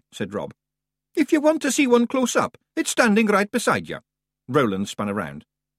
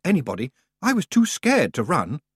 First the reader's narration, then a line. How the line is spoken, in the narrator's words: Roland muttered